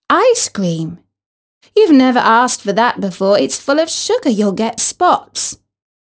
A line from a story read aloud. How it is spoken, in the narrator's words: Isis's mum turned as white as vanilla and exclaimed